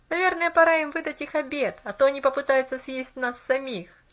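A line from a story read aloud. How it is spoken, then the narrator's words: Boy laughing. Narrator (Russian): засмеялся мальчик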